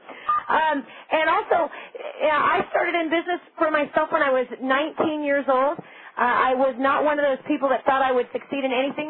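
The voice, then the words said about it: Squeaky, slightly hoarse, fast, loud voice. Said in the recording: “when I get excited, I talk fast and I speak kind of loud ... squeaky voice that now is a little hoarse ... I talk too fast”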